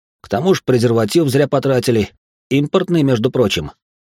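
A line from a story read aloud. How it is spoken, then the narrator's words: Stern accusing tone. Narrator (Russian): продолжил я обвинять ее суровым тоном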